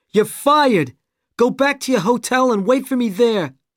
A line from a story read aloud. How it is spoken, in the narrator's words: shouted